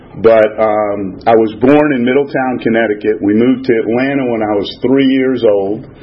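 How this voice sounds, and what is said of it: Non-Southern, Northeastern American accent. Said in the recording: “As you may have been able to decipher from my accent, I'm not a native of Atlanta”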